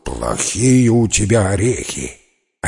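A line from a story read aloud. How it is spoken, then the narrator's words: Roaring in pain. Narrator (Russian): взревел от боли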